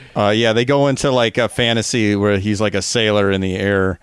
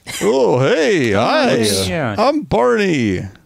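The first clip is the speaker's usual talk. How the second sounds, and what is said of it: Lazy, gruff early Barney character voice. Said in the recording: “his voice is also a little bit lazier. It's like Homer first season or something ... Barney was kind of Walter Matthau-y at the start ... that was not my Barney”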